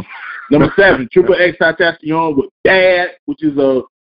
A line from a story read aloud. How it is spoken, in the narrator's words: I said bad loudly, not because I'm a Nick September and I talk loud, but because there's an exclamation mark next to Bad